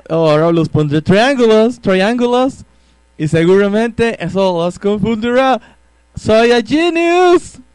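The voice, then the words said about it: Put-on foreigner's bad Spanish accent. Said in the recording (Spanish): “con acento mal de español”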